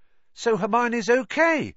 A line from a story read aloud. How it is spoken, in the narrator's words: said Ron, brightly